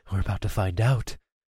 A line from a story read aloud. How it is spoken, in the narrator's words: I whispered